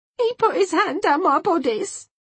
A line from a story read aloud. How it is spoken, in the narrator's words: wailed Miss Lee